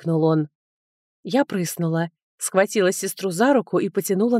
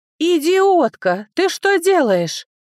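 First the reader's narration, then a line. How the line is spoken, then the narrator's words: Cautious woman yelling. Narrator (Russian): завопила осторожная Рози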